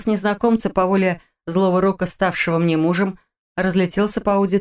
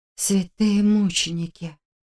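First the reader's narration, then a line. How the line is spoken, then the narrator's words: Whisper. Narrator (Russian): прошептала я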